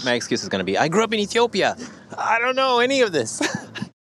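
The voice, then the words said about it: Slight American accent. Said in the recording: “I hear a bit of an American accent.”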